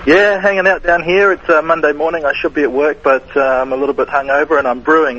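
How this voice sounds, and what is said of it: Australian accent. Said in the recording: “A Australian accent.”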